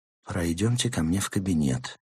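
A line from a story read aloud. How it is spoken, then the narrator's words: Quiet offer. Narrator (Russian): тихо предложил он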